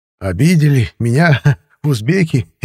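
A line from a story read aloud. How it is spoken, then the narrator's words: Old man's loud laughter. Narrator (Russian): расхохотался дед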